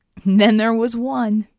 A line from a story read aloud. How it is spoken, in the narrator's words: Red laughed